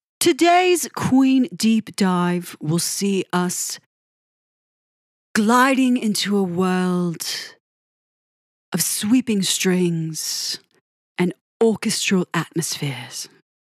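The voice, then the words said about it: Put-on English accent. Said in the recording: “that's my English accent. Yeah. I can kind of pull it off ... I hope that didn't sound too horrific.”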